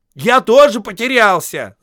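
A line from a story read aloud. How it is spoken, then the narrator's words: Impatient shout. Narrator (Russian): закричал в нетерпении Бильбо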